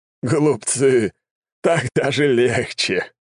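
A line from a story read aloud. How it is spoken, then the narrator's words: Chuckling laugh. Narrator (Russian): хохотнул Сизаран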